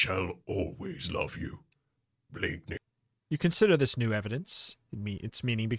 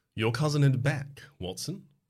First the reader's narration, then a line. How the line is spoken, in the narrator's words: Holmes says cheerfully